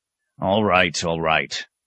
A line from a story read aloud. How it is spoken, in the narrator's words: the abbot growled